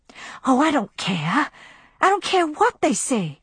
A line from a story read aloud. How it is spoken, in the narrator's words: she whispered, as a sweet madness swept over her